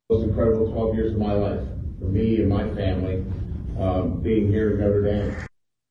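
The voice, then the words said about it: Southern American accent. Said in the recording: “suddenly gets Southern accent ... his nice Southern accent”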